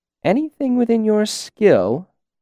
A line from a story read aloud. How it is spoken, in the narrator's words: she repeated playfully